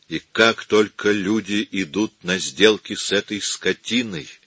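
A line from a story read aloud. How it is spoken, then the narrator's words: Quiet. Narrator (Russian): тихо сказал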